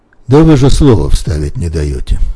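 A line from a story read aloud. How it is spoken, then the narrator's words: Calm reply, frail boy. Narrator (Russian): спокойно отвечал тщедушный белобрысый Федька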